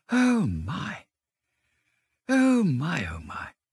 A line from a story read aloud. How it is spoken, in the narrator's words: It was so very beautiful that the mole could only gasp